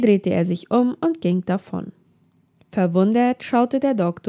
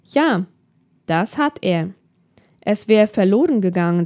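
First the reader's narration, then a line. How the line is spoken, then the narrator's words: Plain. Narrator (German): sagt er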